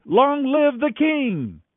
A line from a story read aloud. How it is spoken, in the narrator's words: all the people shouted